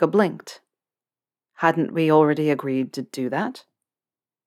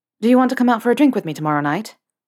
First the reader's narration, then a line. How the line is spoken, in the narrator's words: with his own dose of Gryffindorian courage, he screwed up his face and blurted